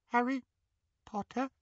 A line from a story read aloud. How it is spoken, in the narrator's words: he squeaked in the tiniest quiver of a voice